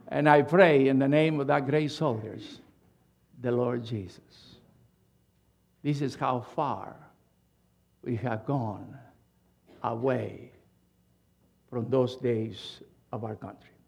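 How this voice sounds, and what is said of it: Foreign accent. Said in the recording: “you are a foreigner... with my accent”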